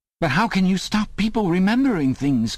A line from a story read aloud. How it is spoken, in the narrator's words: cried Winston